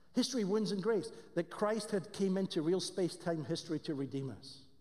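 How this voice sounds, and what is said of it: Scottish accent. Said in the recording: “I know I have a Scottish accent ... just in case you didn't catch my strange accent”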